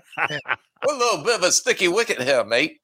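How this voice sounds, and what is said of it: Put-on English accent. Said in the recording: “so I can speak England ... he just said I can speak England”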